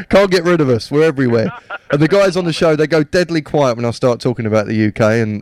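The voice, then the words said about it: British accent. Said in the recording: “as you can probably tell from my accent, I'm from the UK as well”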